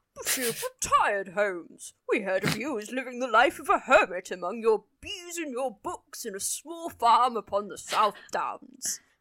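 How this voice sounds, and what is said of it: Performed voice of Dr. Watson. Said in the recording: “I'm going to do a Watson voice ... Great Watson voice”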